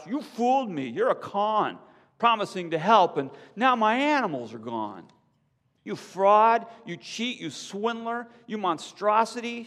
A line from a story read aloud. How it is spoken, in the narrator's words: she cried